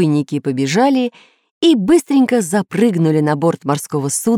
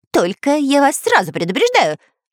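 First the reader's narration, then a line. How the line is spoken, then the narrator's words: Rapid chatter. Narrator (Russian): затараторил шпион Дырка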